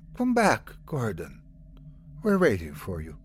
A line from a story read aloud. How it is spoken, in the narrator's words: She continued to whisper